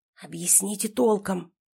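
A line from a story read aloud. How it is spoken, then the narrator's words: Whisper. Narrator (Russian): тоже шепотом сказал я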